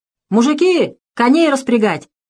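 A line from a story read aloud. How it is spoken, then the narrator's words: Shouted. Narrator (Russian): крикнул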